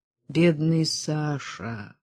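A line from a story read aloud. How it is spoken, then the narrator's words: Barely audible sigh. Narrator (Russian): вздохнул Митя, но так тихо, что никто, кроме Верочки, не расслышал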